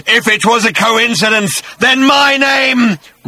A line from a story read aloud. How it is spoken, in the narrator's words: roared the voice